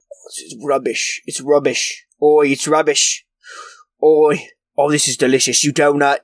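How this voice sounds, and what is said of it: Imitates a British TV chef's voice. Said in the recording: “a very good Gordon Ramsay accent ... a Gordon Ramsay accent as he critiques food ... Well, I do a terrible.”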